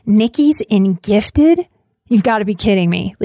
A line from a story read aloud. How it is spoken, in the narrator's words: like laughing